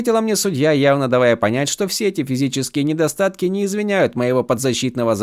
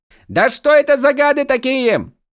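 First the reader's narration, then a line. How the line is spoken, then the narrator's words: Full-voiced yell. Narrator (Russian): Уже во весь голос заорал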